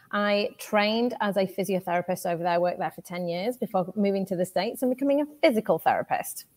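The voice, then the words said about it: British accent. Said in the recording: “You can probably tell from my accent. I am from the UK.”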